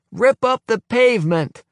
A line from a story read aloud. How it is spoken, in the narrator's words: shouts someone